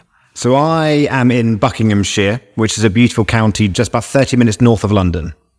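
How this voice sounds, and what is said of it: Non-American English accent. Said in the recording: “The audience is already saying he doesn't sound right. It's not your audio levels... that's what we call in the US an accent.”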